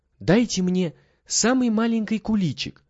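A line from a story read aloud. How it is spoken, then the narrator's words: Timid. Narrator (Russian): робко проговорил Митя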